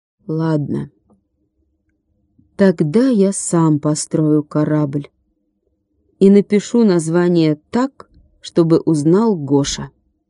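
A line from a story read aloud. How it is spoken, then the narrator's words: Slow and stubborn. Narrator (Russian): он медленно и упрямо сказал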